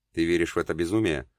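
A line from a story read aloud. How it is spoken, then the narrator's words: Weary question to oneself. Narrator (Russian): устало спросил себя Геша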